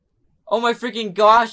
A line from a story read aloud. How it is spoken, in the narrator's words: I cried